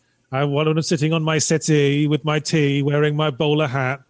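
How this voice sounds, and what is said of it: British accent. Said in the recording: “I hear the accent and I thought I was talking with Darren”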